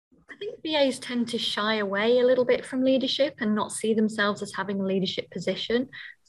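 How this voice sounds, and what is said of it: British accent. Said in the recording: “accent, she's from the UK”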